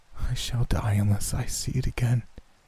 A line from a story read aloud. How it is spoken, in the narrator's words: he said, in a quiet voice not like his own